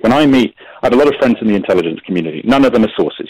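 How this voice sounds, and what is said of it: British accent. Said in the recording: “I grew up abroad, British accent”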